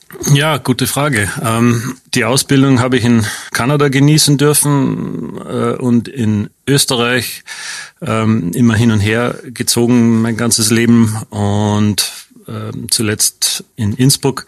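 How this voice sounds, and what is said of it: Slight Austrian regional accent. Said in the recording (German): “Dialekt ... Naja, Dialekt würde ich gar nicht sagen. Das ist so eine charmante regionale Färbung, die ich da raushöre ... Mutter ist Österreicherin”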